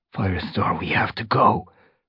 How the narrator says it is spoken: Graystripe hissed

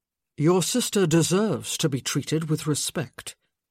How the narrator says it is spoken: he finally said, making sure that his voice was smooth and even

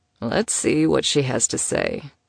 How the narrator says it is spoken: he murmured against the top of her head

